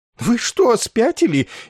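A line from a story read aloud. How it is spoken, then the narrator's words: Frightened shout. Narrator (Russian): испуганно выкрикнул голый полковник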